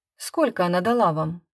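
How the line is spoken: Calm question. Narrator (Russian): спокойно спросила я

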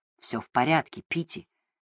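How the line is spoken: Quiet. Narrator (Russian): тихо произнес он

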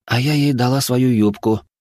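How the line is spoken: Sighing. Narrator (Russian): вздохнула Даша

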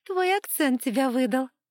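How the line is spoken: Laughing girl. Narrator (Russian): девушка рассмеялась

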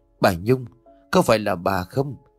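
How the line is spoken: Slightly trembling old voice. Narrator (Vietnamese): giọng nói có chút run rẩy của bà Hoa

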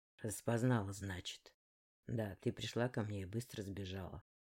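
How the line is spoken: Grumbling. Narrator (Russian): проворчал он

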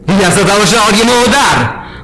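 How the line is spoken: Giant roaring. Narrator (Russian): проревел гигант

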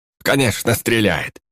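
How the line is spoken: Dismissive snort. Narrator (Russian): Гном фыркнул

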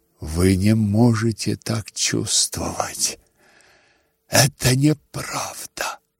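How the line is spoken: Muttering. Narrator (Russian): бормотал он

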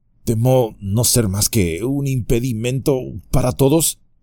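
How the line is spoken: Stammering. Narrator (Spanish): balbuceó

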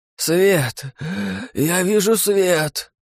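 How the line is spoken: Hoarse rasp. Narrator (Russian): прохрипел Богдан

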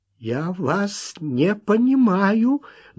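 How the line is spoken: Trembling voice. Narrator (Russian): дрожащим голосом ответил Уэнтворт

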